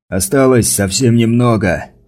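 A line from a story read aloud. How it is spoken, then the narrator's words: Shouting. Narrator (Russian): прокричал Стаффа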